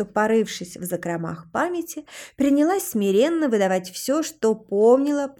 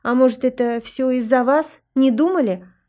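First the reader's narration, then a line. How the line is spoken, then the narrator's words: Nervous snapping. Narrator (Russian): огрызнулась нервно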